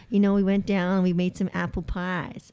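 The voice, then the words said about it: Attempted Southern US accent, unconvincing. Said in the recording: “like with a southern accent. Like, I know I want to go country. ... that is not southern”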